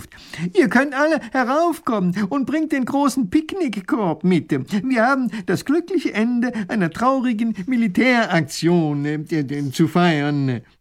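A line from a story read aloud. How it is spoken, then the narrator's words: Calling out. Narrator (German): Professor Pfiffikus ruft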